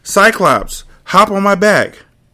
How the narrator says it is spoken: shouts

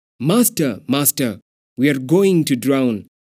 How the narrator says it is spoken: The disciples shouting

